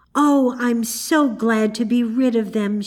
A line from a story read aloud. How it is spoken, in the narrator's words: cried